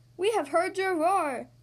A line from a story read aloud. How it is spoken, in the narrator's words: Rafiki says excitedly